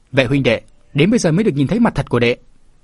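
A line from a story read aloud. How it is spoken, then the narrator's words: Joyful loud laughter. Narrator (Vietnamese): Vạn Vũ Sinh mừng quá cười lớn nói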